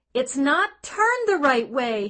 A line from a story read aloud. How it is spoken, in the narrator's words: he screamed